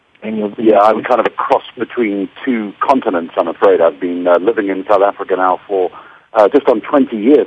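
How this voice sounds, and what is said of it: Mixed English and South African accent. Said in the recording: “I can detect both an English accent and a South African one.”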